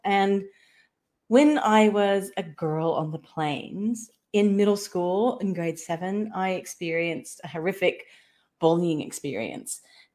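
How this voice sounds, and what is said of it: American Midwestern accent. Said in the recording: “if you can tell by my accent,⟧ I was a Kansas-born girl”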